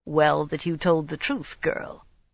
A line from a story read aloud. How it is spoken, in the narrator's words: Kadar murmured dryly